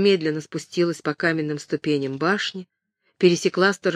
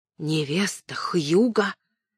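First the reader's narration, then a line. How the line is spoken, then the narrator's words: Incredulous whisper. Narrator (Russian): недоверчиво прошептала она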